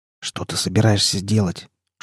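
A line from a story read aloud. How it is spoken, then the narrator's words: Whispered question. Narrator (Russian): шепотом спросил Анс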